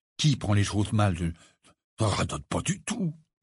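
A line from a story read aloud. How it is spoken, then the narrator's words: Mumbling. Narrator (French): marmonna Ron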